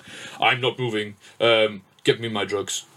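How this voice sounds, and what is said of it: Russian accent with American twang. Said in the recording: “the Russian accent, but the American twang”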